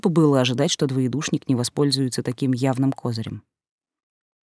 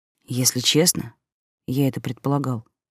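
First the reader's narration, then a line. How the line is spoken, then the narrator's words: Whispered. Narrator (Russian): шепнул он мне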